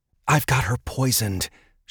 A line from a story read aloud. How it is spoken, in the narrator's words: whispered